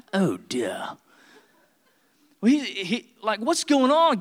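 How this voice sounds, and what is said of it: Put-on British accent. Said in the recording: “they all talk in British, right? They all talk with that accent.”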